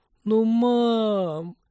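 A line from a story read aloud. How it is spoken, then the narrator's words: Resigned moan. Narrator (Russian): обреченно простонала Полина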